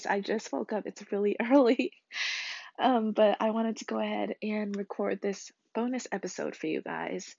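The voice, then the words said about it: Croaky, froggy morning voice. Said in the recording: “I kind of sound like a frog ... excuse my voice.”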